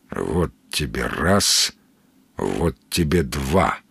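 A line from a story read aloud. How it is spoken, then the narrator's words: Grumbling. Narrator (Russian): проворчал Сергей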